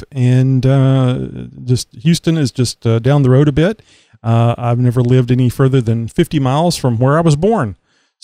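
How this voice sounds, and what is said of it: Texas accent. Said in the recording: “I'm down here in Texas, if you can't tell by my accent”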